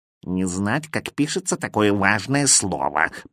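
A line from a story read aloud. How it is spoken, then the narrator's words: Grumbling cat. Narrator (Russian): проворчал кот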